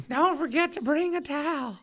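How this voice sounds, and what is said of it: South Park Towelie character voice. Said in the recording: “That was a very South Park voice you had ... Who's it, Tally or Mr. Towel? ... Tally ... I don't know why I can do this voice”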